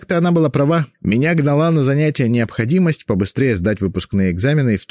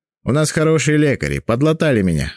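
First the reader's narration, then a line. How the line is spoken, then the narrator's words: Plain. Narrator (Russian): ответил Довлатов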